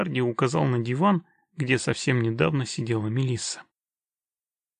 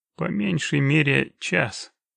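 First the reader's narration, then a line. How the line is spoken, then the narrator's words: Grumbled, expressionless. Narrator (Russian): буркнул Геральт, не меняясь в лице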